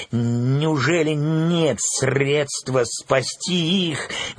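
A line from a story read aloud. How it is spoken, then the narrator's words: Desperate exclamation. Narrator (Russian): в отчаянии воскликнула я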